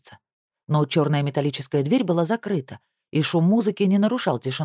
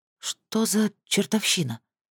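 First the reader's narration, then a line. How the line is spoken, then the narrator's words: Numb-lipped mumble. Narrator (Russian): пробормотала онемевшими губами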